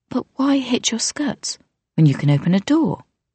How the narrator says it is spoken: Her face scrunched in confusion, and she said, quite sweetly

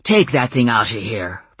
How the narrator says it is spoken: he snarled

